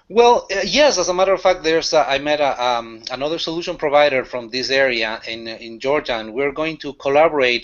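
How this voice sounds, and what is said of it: Non-native English accent. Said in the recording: “As you can notice from my accent, I'm. I wasn't born here. English is my second language”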